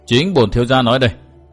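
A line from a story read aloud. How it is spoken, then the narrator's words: Cold. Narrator (Vietnamese): lạnh lùng nói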